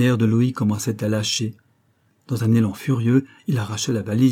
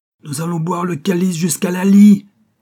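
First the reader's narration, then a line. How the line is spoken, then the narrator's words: Roaring. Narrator (French): rugit-il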